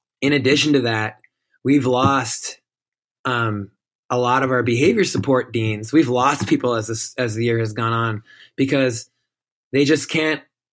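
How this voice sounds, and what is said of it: Hoarse, strained voice. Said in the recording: “I'm losing my voice because of all the hollering I've had to do.”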